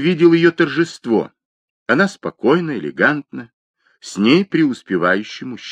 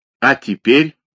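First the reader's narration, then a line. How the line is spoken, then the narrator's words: Angry question. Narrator (Russian): зло спросил Игорь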